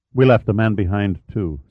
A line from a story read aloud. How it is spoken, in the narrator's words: said Pitt